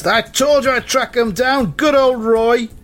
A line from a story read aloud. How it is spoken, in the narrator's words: And the leader shouts